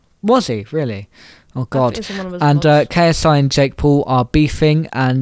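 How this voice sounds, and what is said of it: Usual voice. Nothing is said of it.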